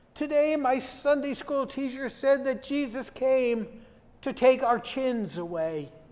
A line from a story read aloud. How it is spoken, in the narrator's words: Rolana replied in a quavering voice